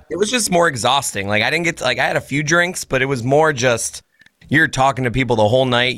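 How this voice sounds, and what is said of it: Tired, worn-out voice. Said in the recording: “I'm on stage shouting. So my voice is, ... It's just the voice is tired, my friend.”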